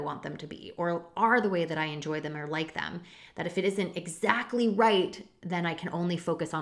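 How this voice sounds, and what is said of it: Usual voice. Nothing is said of it.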